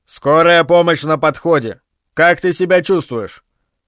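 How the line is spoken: Patrolman's authoritative voice. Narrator (Russian): дорожный патрульный представительным голосом заявил

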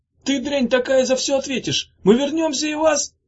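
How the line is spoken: Yelling. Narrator (Russian): заорал

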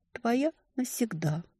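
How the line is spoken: Sleepy whisper. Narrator (Russian): уже засыпая, убаюканная лаской и поцелуями, шептала

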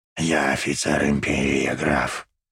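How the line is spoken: Hissing, wounded man. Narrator (Russian): прошипел раненый

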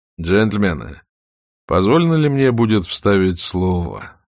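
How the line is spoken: Lazy Southern drawl. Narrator (Russian): сказал Ред Батлер, лениво на чарльстонский лад растягивая слова

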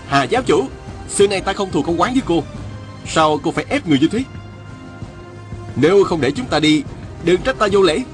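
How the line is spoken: Shout. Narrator (Vietnamese): Viên Thừa Chí la lên

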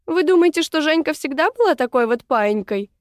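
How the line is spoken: Laughing. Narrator (Russian): рассмеялась

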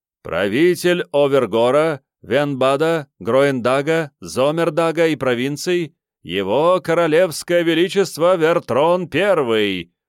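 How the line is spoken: Chanted ceremonial proclamation. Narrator (Russian): прокричал нараспев церемониймейстер

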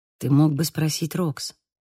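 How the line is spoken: Lowered voice, very quiet. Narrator (Russian): Я понизила голос и говорила так тихо, чтобы другие меня не слышали

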